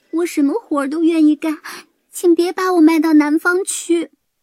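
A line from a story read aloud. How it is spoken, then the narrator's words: Crying, pleading. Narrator (Chinese): 她哭着哀求老夫妇说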